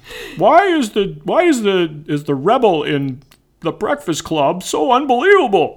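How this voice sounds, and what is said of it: Imitates another person's voice, not well. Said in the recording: “That wasn't actually a very good ... impression”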